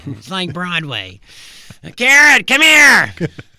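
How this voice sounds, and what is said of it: Loud impression of Louie Anderson. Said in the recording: “Sorry, just blew out the engineer in there. Sorry, I was going to do my Illyrian impression.”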